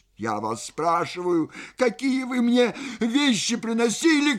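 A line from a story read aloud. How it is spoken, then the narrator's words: Shouting. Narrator (Russian): крикнула Паша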